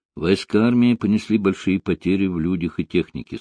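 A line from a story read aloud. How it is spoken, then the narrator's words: Plain. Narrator (Russian): сказал он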